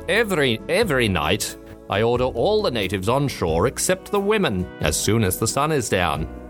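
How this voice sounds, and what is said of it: Put-on accent reading log. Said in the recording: “I think that's a completely different accent.”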